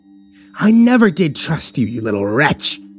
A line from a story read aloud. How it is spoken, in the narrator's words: the nun spat at him